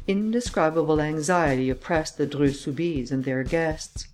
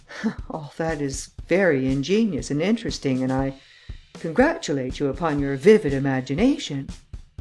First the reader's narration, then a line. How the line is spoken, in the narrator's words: the Count affected to laugh as he said